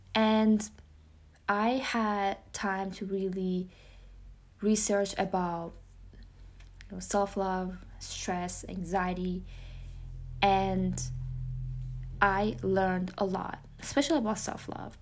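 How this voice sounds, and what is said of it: Persian-accented English. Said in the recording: “my Persian accent ... English is my second language, so it makes sense for me to have an accent”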